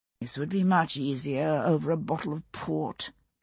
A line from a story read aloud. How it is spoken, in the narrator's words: Percy said with a sigh